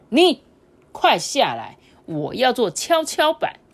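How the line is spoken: Loud child. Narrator (Chinese): 这个小男孩……大声的说

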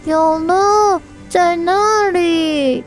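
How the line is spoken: Shouting. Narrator (Chinese): 小青蛙就大喊

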